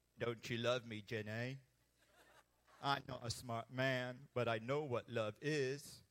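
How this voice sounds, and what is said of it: Forrest Gump character impression. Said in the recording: “to do my best Forrest Gump impression”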